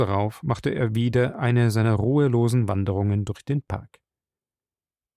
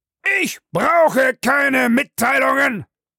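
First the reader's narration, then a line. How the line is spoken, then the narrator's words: Angry roar. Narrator (German): brüllte Bellamy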